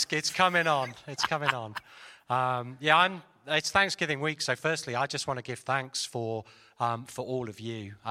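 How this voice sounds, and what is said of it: Speaks with a foreign accent. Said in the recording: “Nice accent, by the way.”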